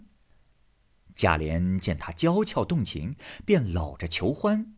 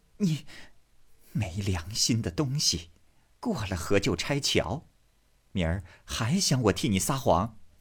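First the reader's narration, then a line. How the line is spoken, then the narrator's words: Through gritted teeth. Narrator (Chinese): 平儿咬牙道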